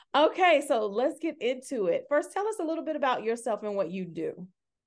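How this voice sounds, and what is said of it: Southern US accent. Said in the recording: “someone heard my accent today and said, "Are you from the South?" ... I can't even pretend ... yes, yes, I'm from the South.”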